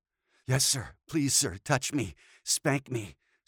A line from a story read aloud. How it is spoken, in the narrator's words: Scott gasped, his breath ragged in his chest from arousal